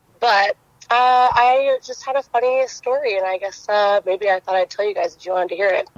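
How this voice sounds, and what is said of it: Hoarse, strained, fading voice. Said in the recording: “I am, like, losing my voice.”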